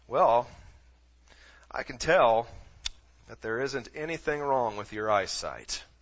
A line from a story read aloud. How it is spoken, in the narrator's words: the doctor looked her over for a couple of moments and then calmly said